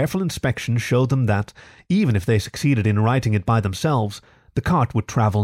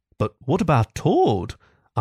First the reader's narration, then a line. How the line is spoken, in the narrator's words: asked the mole anxiously